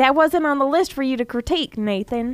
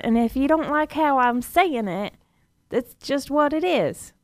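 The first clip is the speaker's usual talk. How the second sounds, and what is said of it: Put-on Southern American accent. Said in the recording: “Southern accent ... This is my southern accent”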